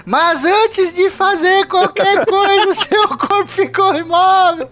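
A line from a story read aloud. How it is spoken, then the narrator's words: Shout. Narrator (Portuguese): a Hilda gritou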